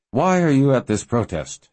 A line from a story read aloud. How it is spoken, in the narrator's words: She said in a necessarily muffled voice